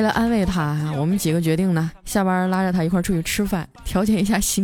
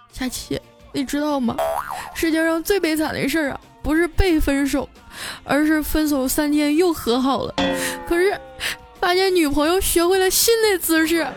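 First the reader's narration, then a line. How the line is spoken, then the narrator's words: Choked, tearful. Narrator (Chinese): 小黑就哽咽着说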